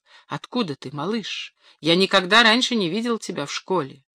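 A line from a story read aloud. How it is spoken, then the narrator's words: Quiet question. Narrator (Russian): тихо спросил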